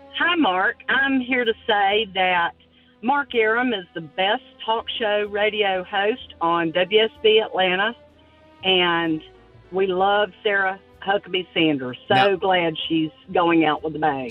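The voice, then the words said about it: Unique Southern drawl. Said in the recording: “Southern accent ... you got a very unique drawl there”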